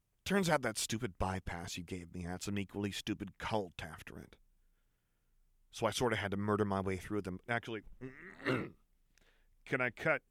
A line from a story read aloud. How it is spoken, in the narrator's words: Jinx grumbled